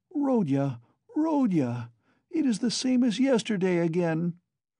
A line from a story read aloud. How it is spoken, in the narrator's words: Pulcheria Alexandrovna cried mournfully